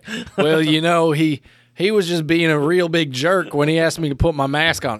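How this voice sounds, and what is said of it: Put-on Southern US accent. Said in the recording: “I'm going to go with my southern accent here”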